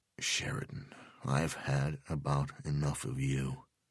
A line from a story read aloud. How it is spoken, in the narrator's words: Delvecchio said quietly